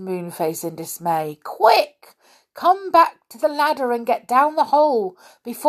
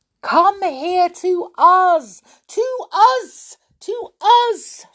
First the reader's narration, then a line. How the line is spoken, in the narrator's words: shouted Joe in despair